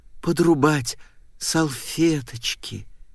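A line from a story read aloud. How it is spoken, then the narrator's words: Purring. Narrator (Russian): промурлыкала она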